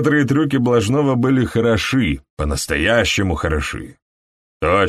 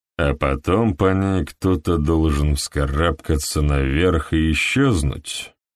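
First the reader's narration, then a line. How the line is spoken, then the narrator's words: Low-voiced question. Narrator (Russian): спросил Хедли низким голосом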